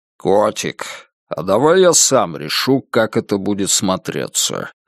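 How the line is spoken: Young man's sudden deep bass. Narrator (Russian): неожиданным басом сказал парень

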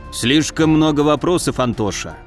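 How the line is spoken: Snorting. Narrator (Russian): хмыкнул Камбулат

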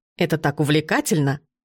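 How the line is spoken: Old man chuckling. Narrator (Russian): хохотнул дед

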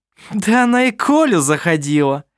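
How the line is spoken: Scornful laugh. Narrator (Russian): презрительно рассмеялась Керстен

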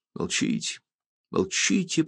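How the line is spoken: Whisper. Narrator (Russian): прошептал

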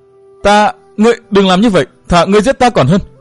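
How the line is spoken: Woman crying out. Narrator (Vietnamese): âm thanh của Thiết Tâm Lan kêu lên

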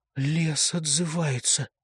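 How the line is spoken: Whisper. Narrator (Russian): прошептала

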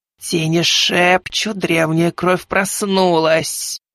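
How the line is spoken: Quavering voice, female ruler. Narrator (Russian): дребезжащим голосом произнесла повелительница луноликих

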